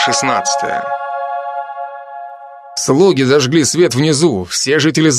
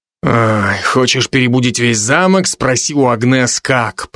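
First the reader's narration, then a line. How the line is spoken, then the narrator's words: Muttered. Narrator (Russian): пробормотал я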